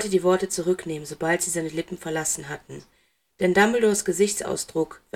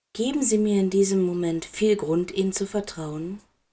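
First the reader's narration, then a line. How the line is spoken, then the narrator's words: Gentle. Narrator (German): sanft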